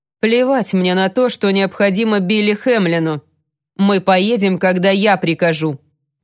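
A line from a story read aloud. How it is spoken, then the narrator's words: Growling. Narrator (Russian): прорычал он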